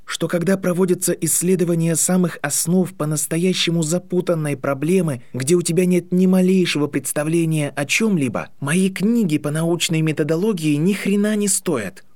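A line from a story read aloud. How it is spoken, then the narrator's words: Through clenched teeth. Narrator (Russian): ответил Гарри сквозь зубы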